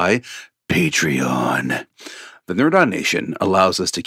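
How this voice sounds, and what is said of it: Usual voice. Nothing is said of it.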